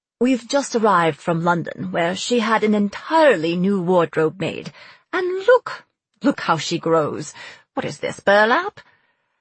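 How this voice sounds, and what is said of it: Posh English accent. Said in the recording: “a perfect imitation of a posh English accent”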